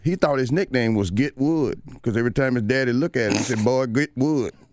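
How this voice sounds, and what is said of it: Herschel Walker impression. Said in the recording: “That was my Herschel Walker impression.”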